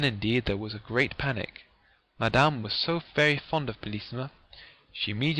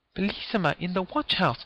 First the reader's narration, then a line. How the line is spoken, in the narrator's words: she cried